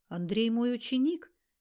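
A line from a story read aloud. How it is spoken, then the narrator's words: Even-voiced explanation. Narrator (Russian): тем же ровным голосом пояснил Зимородинский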